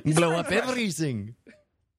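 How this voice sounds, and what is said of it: Mock Russian accent drifting French. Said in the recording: “it's amazing how fast my Russian accent became French”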